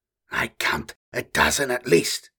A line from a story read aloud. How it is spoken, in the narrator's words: Jarl whispered